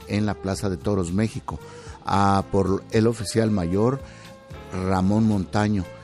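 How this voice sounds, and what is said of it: Deep, thick, affected-sounding voice. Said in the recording (Spanish): “ahora sí está en voz de hombre. ... Una voz así gruesa, así impostada. ... que todos los días se enferme así para que se oiga mejor.”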